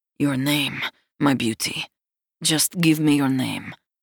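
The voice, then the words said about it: Deep rumbling voice, thick Slavic accent. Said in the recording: “he murmurs, and the deep rumble of his tone vibrates me from head to toe ... The tone, the thick Slavic accent”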